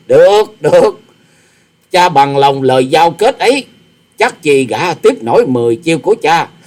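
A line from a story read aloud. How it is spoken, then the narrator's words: Arrogant loud laughing. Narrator (Vietnamese): Tư Đồ Hạnh ngạo nghễ cười to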